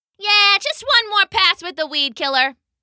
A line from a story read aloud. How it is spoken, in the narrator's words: the human shouted back